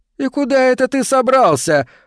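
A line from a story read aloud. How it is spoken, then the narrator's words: Laughing. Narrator (Russian): рассмеялся Эндрю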